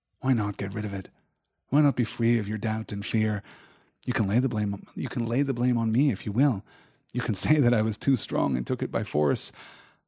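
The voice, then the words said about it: Softer voice. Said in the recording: “in a softer voice”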